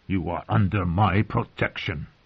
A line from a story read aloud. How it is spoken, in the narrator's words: she said, her voice so thick with anger that it was almost a growl